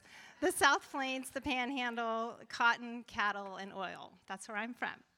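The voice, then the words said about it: Texas accent. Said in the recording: “I try really hard to have a California accent, but it comes out. Texas comes out all the time.”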